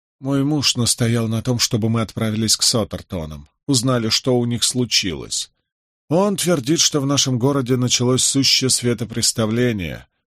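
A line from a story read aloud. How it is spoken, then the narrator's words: Flat indifferent tone. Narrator (Russian): произнесла моя собеседница ровным безучастным тоном, словно ее ничуть это не волновало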